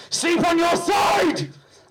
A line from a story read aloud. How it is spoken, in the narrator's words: shouted, commanding